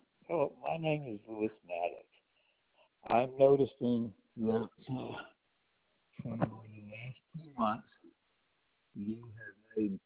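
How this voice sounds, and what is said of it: Muffled, hard-to-hear voice. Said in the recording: “Your voice is really muffled.”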